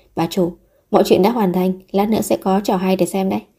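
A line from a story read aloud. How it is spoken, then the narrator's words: Soft quiet voice. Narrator (Vietnamese): HK khẽ nói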